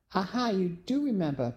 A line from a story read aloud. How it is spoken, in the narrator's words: Penny exclaimed